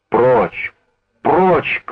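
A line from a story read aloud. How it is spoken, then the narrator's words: Shout. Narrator (Russian): крикнул он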